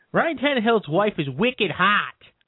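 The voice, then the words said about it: Poor put-on Boston accent. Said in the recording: “That was a terrible impression. ... it's South Jersey thing. We we we can't hit those syllables. ... coming from Boston”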